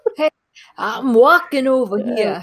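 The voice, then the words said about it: Bad New York accent. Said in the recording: “Terrible New York accent... I'm just the worst at accents.”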